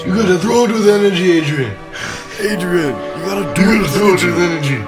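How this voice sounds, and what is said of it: Rocky movie character voice. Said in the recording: “a Rocky voice”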